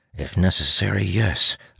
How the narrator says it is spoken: I mutter

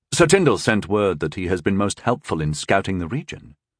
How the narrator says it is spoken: Rondol said calmly

